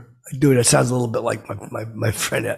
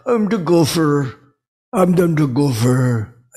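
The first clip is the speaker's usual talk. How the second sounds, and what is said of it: Imitates another person's voice. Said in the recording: “I start doing him, I do a good impression of him.”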